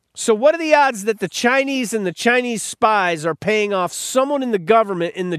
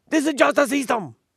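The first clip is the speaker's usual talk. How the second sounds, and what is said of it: Weak put-on Chinese accent. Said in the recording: “That's supposed to be with a Chinese accent. That wasn't that good. ... That's Japanese. ... I don't do a good Chinese.”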